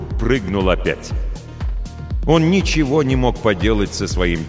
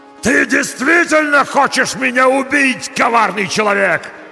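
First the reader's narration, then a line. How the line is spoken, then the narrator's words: Monster's roar. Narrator (Russian): заорал монстр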